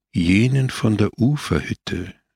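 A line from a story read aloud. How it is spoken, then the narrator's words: Calm. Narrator (German): sagte ruhig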